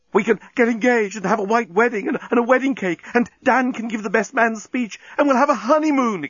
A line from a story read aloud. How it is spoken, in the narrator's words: exclaimed the journalist